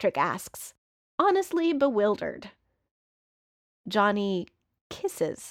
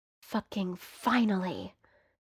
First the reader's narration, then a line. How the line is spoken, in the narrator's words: Johnny mutters against Patrick's mouth, like he's been waiting forever to kiss Patrick